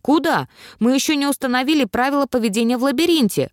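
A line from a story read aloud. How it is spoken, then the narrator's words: Exclaiming. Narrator (Russian): воскликнул Брокс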